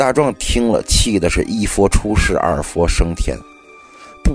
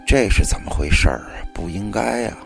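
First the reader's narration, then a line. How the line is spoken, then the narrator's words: Muttering to himself. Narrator (Chinese): 王半仙喃喃自语道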